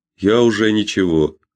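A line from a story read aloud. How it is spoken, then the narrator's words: Dull, flat voice. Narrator (Russian): тусклым голосом проговорил Дэвид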